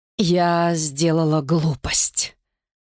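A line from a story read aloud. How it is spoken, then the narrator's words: Breathy exhale. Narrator (Russian): выдохнула она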